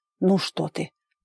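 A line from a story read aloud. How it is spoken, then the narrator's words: Mumbling into ear. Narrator (Russian): бормотал куда-то в ухо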